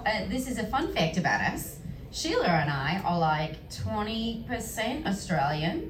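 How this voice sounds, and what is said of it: Strong Australian accent. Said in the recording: “You come back with a full-on, and there I say, amazing Australian accent”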